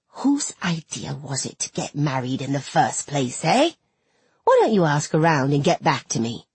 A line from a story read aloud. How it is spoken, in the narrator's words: she hissed